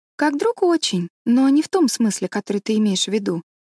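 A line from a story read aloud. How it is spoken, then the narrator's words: Calm, confident answer. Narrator (Russian): спокойно и уверенно ответила Энн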